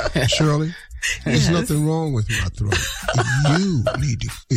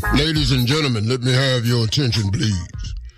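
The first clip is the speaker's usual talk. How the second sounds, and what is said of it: Booming stadium announcer voice. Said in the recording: “This is my stadium voice. ... the voice I use if I was an overall announcer for the stadium at the Monster Truck Rallies”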